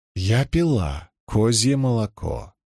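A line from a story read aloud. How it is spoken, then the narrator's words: Calm tone. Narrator (Russian): сказала Илэйн спокойным тоном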